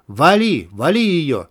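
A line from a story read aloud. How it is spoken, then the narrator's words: Shouting. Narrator (Russian): кричал Михалев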